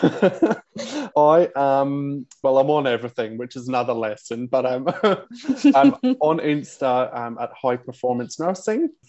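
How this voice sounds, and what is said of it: Scottish accent. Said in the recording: “the dodgy Scottish accent”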